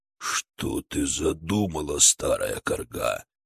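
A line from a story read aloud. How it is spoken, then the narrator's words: Growled. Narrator (Russian): прорычал Огард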